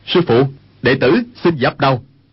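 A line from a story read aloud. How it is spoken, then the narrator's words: Raised voice. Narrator (Vietnamese): Dương Khang cao giọng nói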